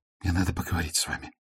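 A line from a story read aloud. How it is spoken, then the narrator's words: Nervous whisper. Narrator (Russian): Лума волнуясь, прошептала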